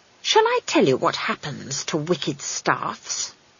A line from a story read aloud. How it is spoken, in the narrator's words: she hissed